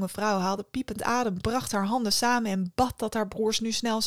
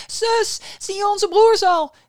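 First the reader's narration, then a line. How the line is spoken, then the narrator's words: Calling out again. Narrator (Dutch): riep ze nogmaals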